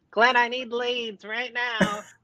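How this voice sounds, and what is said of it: Imitates another person's voice. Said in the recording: “that your Christian impersonation?”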